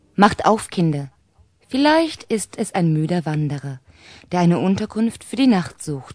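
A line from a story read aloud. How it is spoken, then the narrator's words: Plain. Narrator (German): sagte die Mutter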